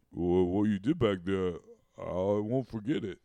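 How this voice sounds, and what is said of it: Imitates another person's voice. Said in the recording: “I'm not the expert Stallone impersonator... No, it's pretty good.”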